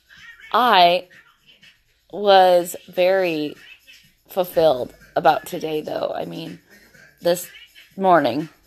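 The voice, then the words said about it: Husky, sick-sounding voice. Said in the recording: “I am sick as a fucking dog right now... my voice is a lot more husky”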